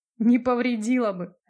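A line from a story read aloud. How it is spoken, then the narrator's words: Laughing loudly. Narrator (Russian): расхохотался Макс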